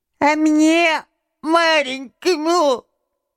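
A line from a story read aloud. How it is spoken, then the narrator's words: Thin high little voice. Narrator (Russian): прибавил он тоненьким голоском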